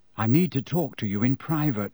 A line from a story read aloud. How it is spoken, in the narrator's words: Harry muttered to Ron and Hermione